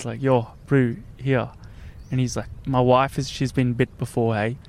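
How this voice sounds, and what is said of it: Put-on South African accent. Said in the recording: “great South African accent”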